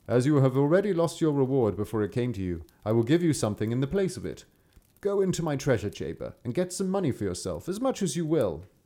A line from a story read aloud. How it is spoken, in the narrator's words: The king could not help laughing at the peasant, and once all his anger was gone, he said